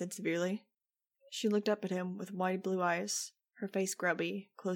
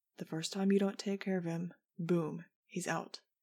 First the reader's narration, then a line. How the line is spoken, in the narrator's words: Fang said